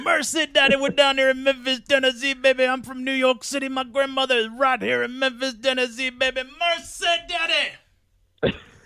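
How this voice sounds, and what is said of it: Imitates another person's voice. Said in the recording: “your Handsome Jimmy Valiant impression”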